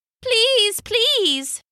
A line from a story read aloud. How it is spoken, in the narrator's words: cried